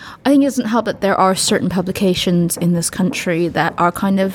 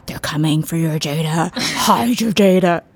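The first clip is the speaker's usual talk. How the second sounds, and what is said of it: Scary spooky voice. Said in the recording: “Is that a good scary voice?”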